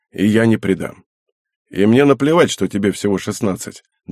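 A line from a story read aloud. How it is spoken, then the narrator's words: Back to normal tone. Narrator (Russian): добавил он уже обычным тоном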